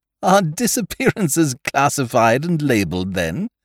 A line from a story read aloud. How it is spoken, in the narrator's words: I laughed